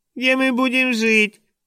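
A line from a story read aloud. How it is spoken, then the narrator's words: Mocking squeak. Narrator (Russian): пропищал он издевательским тоном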